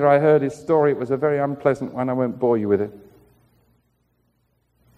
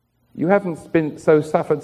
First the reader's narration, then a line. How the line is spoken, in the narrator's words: says